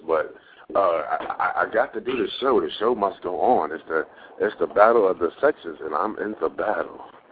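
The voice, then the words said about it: Hoarse voice. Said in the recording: “I'm hoarse,”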